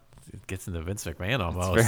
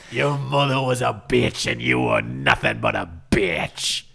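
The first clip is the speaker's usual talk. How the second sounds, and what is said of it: Bray Wyatt impression. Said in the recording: “his Bray Wyatt impression”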